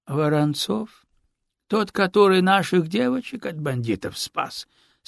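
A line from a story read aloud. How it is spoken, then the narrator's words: Calm, slightly tired. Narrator (Russian): Спокойным и даже несколько усталым голосом уточнил полтора жида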